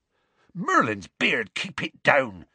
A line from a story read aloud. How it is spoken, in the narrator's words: said Hagrid hastily